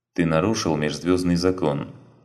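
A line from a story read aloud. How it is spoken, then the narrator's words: Cold, detached voice. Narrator (Russian): проговорил Сарен холодным, отчужденным голосом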